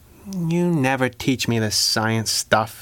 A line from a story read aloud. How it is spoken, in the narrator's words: said under her breath